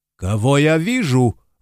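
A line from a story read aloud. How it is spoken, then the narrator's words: Exclaiming professor. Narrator (Russian): воскликнул профессор археологии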